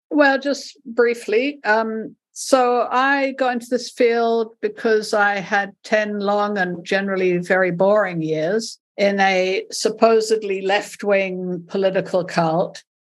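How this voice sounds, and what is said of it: Mixed accent from several continents. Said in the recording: “my accent, which is just a mishmash now of several continents”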